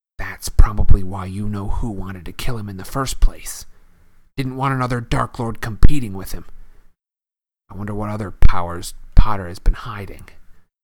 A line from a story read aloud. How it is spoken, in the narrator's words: He dropped his voice until it was barely more than a whisper, and said